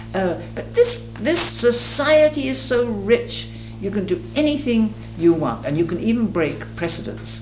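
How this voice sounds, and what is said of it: Faint remaining English accent. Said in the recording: “you're English, aren't you? ... You still have some accent left, you know. Sort of a remnant”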